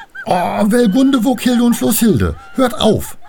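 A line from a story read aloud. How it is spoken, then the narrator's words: Indignant outcry. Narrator (German): rief sie empört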